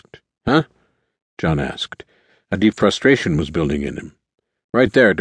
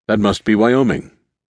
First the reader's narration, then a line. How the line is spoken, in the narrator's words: Gordon said, his tone calm